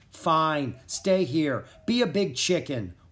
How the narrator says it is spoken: Rory snapped

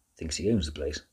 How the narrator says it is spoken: the dog muttered under her breath

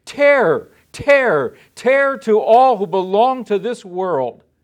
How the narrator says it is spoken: a single eagle crying loudly as it flew through the air

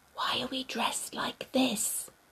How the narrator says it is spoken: whispered

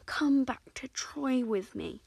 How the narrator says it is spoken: he begged her one moonlit night

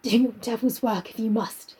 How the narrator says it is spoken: he muttered

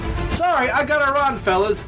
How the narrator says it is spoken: he shouted down at the flabbergasted villains

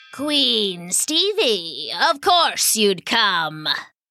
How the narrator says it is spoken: sneered Warvalo the wizard

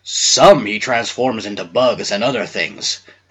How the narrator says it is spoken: growled the bear's head

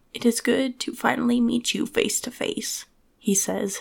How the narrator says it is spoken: his voice raspy and broken

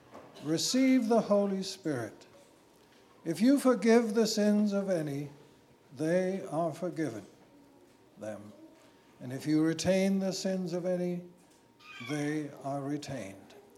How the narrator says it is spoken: he breathed on them and said to them

